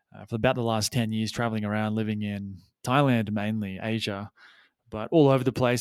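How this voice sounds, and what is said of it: Faded Australian accent. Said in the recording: “accent that I am Australian, though I have lost my accent, or some of it anyway”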